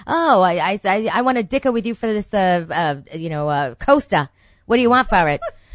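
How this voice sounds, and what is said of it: Weak attempt at Maine accent. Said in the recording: “I can't even do a Maine accent.”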